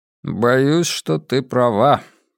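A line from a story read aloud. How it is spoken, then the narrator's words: Glum. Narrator (Russian): уныло согласился я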